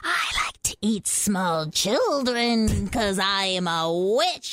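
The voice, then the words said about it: Witch character voice. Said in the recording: “I do a witch voice.”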